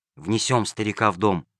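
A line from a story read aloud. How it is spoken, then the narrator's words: Whisper. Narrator (Russian): прошептал Джельсомино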